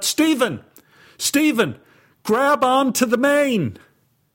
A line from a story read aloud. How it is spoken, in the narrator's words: Anne shouted out